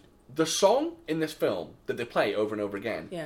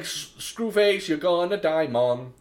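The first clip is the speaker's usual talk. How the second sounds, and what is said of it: Put-on Jamaican accent. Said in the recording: “my very, very good Jamaican accent”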